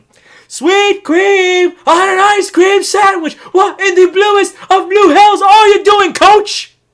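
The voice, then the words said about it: Imitates another person's voice. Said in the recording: “Nice impersonation there, The Rock.”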